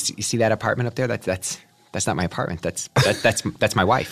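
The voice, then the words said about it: Imitates another person's voice. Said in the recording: “Martin Scorsese impression from like a taxi driver when he's in the back of the cab.”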